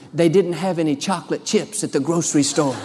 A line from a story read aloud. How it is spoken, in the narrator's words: She whispered